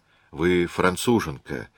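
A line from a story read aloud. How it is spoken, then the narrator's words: Sigh. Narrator (Russian): вздохнул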